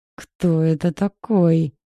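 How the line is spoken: Through gritted teeth. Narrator (Russian): процедил Бирюков

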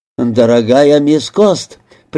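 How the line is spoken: Conciliatory doctor. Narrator (Russian): примирительным тоном начал доктор

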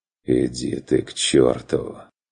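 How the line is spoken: Tired repeating. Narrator (Russian): повторил чародей устало

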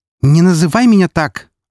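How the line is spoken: Angry snapping. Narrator (Russian): огрызнулась Альфарка, а ее прекрасное лицо исказилось в гримасе злости

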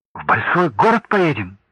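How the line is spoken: Exclamation. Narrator (Russian): воскликнул Олег

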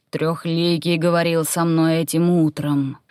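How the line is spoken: Imposing bass voice. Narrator (Russian): внушительным басом произнес Верховный

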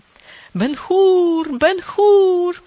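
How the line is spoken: Crowd chanting loudly. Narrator (Russian): кричали они, и смешанный гул голосов разношерстной массы перекатывался по цирку

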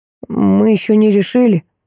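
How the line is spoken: Admitting. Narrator (Russian): признался

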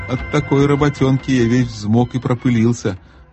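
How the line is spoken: Booming, puffing giant. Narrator (Russian): прогудел, отдуваясь, великан, пыхтя, как большой паровоз

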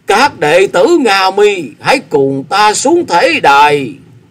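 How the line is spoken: Loud, tearful. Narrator (Vietnamese): Ngộ Tịnh chân nhân gạt nước mắt, lớn tiếng tiếp lời

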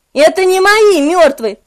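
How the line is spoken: Shouting. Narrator (Russian): прокричал я

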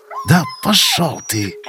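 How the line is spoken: Through gritted teeth. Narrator (Russian): отозвался сквозь зубы Винт

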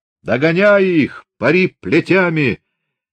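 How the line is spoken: Furious shout. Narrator (Russian): скосив глаза от бешенства, крикнул Григорий

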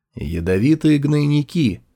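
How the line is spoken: Calm. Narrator (Russian): спокойно констатировал Сюаньзы

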